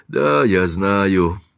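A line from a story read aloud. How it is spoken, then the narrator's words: Sigh. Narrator (Russian): вздохнул мистер Стэкпол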